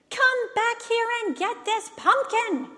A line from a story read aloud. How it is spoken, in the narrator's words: yelled